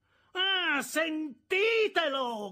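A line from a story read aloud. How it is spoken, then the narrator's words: Shouting together, clapping. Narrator (Italian): gridò mia sorella tutti insieme, urlando e battendo le mani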